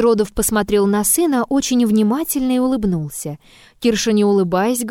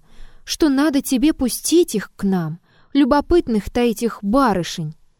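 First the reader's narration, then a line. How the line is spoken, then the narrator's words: Pleading voice. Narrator (Russian): сказал Кирша просящим голосом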